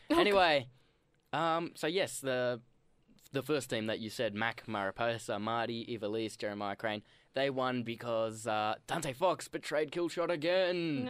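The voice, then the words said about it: Speaks with a noticeable accent. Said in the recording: “I need your accent, like, sometimes.”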